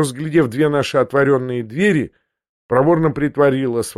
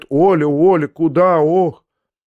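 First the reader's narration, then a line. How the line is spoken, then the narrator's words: Older woman moaning. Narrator (Russian): пожилая женщина только простонала ей вслед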